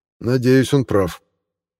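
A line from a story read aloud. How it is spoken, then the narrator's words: Grumble. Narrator (Russian): проворчал тот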